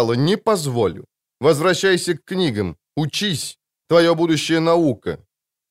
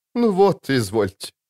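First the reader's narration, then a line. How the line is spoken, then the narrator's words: Mocking. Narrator (Russian): насмешливо проговорила Неннеке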